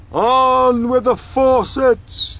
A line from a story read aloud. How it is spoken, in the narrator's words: it shouted